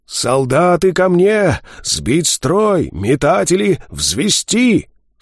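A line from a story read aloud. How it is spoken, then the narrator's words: Hoarse strained rasp. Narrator (Russian): в этом сорванном хрипе голос Вида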